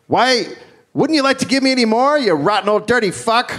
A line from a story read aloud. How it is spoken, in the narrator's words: When the judge sentenced her, shouted at him